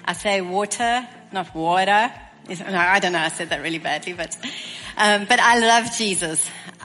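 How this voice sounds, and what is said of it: South African accent. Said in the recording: “I come from Stellenbosch, South Africa. As you can hear, my accent is a little different.”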